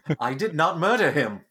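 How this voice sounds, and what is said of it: Robotic voice imitating Sonny from iRobot. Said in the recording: “Get the robot voice... Sonny from iRobot”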